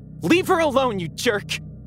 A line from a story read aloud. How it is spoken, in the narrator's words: I yelled